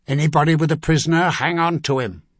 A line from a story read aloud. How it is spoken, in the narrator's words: Aplin Armagh barked